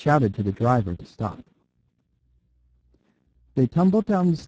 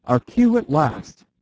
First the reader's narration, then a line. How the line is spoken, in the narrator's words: cried Valentin